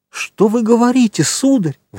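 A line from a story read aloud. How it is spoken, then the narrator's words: Distressed exclamation. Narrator (Russian): воскликнула госпожа де Вильфор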